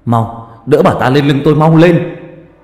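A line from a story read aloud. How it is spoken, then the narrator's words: Loud shout. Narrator (Vietnamese): Ông Ninh hét lớn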